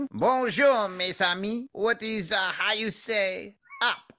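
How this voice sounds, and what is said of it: Exaggerated obnoxious French accent. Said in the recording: “the most obnoxious French accent possible”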